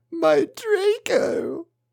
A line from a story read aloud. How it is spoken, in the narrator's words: he moaned